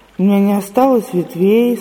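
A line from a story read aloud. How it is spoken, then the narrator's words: Plain. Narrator (Russian): сказала яблоня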